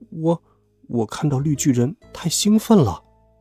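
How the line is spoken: Whispering. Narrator (Chinese): 我小声说

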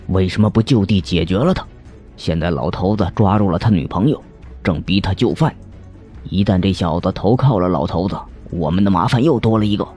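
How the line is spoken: Irritable voice. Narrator (Chinese): 乌慈的声音很暴躁

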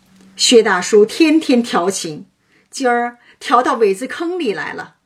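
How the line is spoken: Teasing. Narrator (Chinese): 贾蓉取笑道

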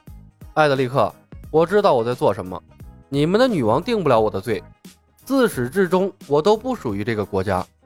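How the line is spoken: Calm, detached. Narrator (Chinese): 程东东淡淡的说道

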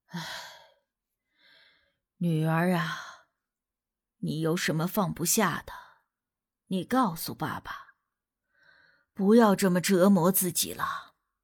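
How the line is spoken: Deep sigh. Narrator (Chinese): 他深深的叹了一口气

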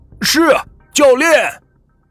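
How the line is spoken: Loud shout. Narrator (Chinese): 李明大声的喊道

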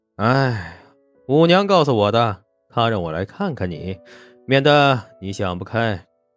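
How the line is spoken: Sighing. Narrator (Chinese): 严伯年叹了口气

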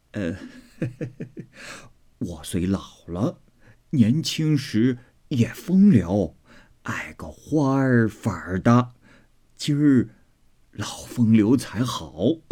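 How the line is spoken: Old woman laughing. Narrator (Chinese): 刘姥姥笑道

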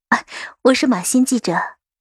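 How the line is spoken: Hasty laughing interruption. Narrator (Chinese): 杜恒忙打断，笑道

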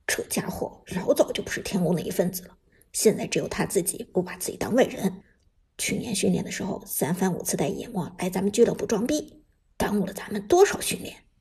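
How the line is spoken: Deep grave voice. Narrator (Chinese): 烟云沉声说道

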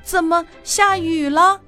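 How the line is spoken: Startled loud shout. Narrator (Chinese): 黑母鸡醒来时吓一跳，大声的喊

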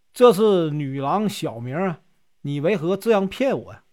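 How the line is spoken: Laughing. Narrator (Chinese): 他便笑着说

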